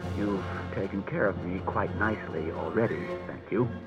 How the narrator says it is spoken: said Bailey grimly

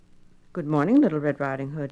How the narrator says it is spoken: he said

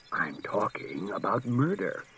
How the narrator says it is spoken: said the commissioner softly

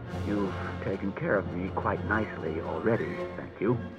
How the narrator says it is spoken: said Bailey grimly

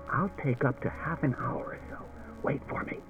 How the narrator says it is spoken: He whispered to Daniil

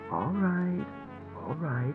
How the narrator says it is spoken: he said soothingly

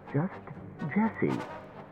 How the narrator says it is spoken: she said tightly

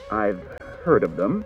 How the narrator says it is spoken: he said

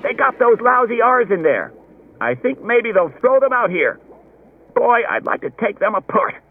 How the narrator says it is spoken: Someone else said excitedly

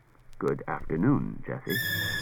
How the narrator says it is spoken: Daniel said in a low murmur

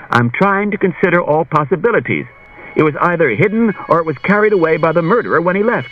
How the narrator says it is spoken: Bailey said impatiently

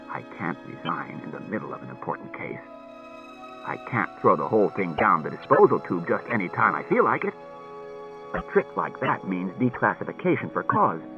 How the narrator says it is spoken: Bailey said coldly

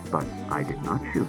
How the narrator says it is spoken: said Daniil

